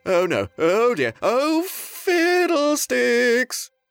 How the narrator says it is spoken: the prince shouted

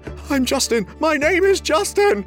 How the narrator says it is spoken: whimpered

